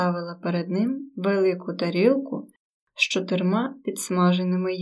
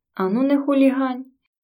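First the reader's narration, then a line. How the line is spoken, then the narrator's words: Bell-like laughter. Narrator (Ukrainian): засміялася дзвіночком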